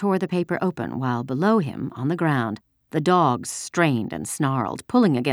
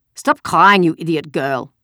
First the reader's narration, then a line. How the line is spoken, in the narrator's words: said harshly